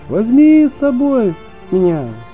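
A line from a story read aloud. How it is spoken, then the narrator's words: Hare shouting. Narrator (Russian): прокричал заяц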